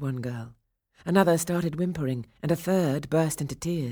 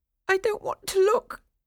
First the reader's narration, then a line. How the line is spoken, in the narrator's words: said the whimperer